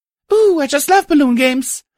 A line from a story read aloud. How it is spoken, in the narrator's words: A voice exclaimed